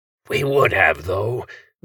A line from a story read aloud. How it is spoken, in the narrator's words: the voice came again from all around the room before descending into an imitation of a whisper